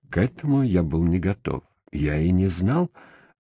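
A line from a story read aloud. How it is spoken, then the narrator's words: Muttering. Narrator (Russian): пробормотал я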